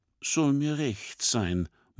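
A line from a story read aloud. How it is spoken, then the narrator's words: Murmuring. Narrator (German): murmelt Schubert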